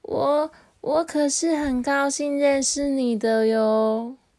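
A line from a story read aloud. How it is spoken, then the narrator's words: Sudden voice from behind. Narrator (Chinese): 突然背后传来了一个声音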